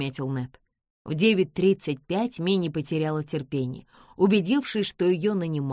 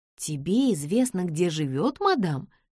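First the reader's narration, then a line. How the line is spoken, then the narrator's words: Anxious question. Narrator (Russian): взволнованно спросила Нэнси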